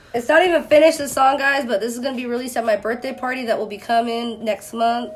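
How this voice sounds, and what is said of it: Slightly congested voice from a cold. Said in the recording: “I have a little bit of a cold”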